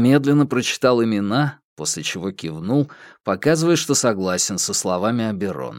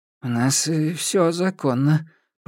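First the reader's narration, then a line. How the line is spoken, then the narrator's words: Mumbled. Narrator (Russian): промямлил фрикмейстер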